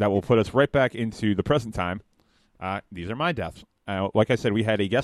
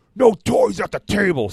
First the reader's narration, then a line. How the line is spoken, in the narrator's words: screamed Dooley's father, who we all know is a harsh Nazi sympathizer